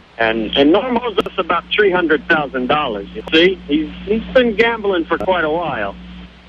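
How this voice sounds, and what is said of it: Put-on New Jersey accent. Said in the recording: “my accent may not be the best ... a debt collector from New Jersey”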